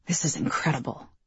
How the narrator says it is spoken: he murmured

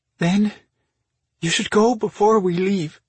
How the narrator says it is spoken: she said in a trembling voice

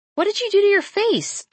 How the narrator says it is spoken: I blurt

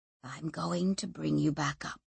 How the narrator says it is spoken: whispered Tomas in her ear

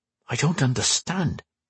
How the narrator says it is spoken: he muttered to himself

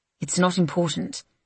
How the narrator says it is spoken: he mutters

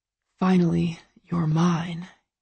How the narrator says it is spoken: he whispers

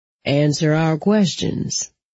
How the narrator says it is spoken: he said in a perfectly level voice

